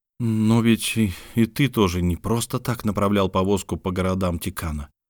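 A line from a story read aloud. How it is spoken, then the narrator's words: Grumbling. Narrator (Russian): пробурчал Лук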